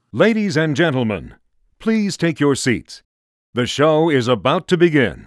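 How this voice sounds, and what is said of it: Silky smooth announcer voice. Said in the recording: “That's how he sounds, yeah. Silky and smooth. ... a silky smooth voice”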